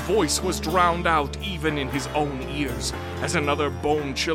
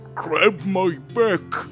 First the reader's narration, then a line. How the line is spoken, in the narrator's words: the big thing snorted